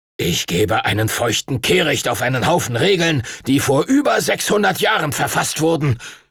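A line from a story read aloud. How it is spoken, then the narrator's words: Angry shout. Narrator (German): rief Master Duncan wütend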